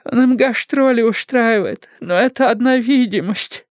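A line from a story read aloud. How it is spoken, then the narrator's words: Sobbing woman. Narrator (Russian): она зарыдала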